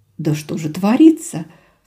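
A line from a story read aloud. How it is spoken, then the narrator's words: Sob. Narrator (Russian): всхлипнула Рада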